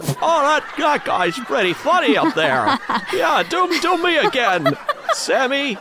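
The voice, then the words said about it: Jimmy Stewart impression. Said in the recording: “They got Jimmy Stewart out there going”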